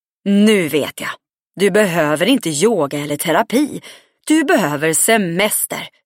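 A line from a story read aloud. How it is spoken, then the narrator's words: Happily. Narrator (Swedish): sa glatt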